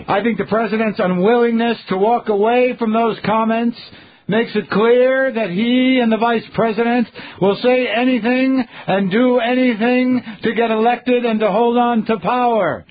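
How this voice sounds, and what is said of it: Silly imitation of a politician's voice. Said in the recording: “I'm just reading it in my silly Kerry voice.”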